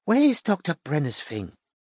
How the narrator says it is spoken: she muttered

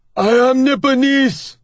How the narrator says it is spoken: he shouts

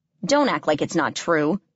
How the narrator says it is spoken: growled

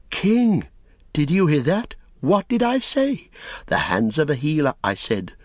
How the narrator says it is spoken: Pippin heard Eorath exclaim

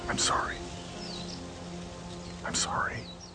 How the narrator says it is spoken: whispering the words

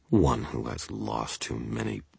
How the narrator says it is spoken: grumbled, frustrated, mocking her beneath my breath

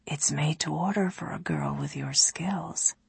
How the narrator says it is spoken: whispered

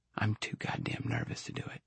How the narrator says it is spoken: lowering her voice so Mike wouldn't hear

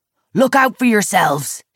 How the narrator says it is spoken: he roars

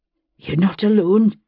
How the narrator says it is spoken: he panted

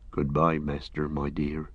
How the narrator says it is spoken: he murmured

